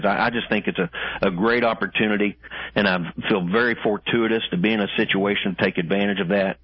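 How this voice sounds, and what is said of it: Southern American accent. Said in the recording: “especially with that Southern accent, it sounds great”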